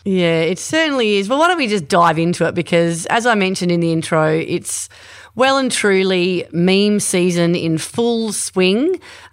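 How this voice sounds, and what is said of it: Stuffy, congested voice from a cold. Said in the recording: “I'm a bit stuffy, actually. I've got a cold”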